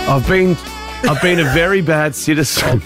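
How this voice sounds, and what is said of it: Exaggerated sexy voice. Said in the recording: “your sexy voice ... This is so sexy.”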